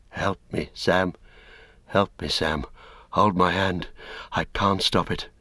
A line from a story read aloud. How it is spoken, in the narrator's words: Faint, almost inaudibly, he heard Frodo whispering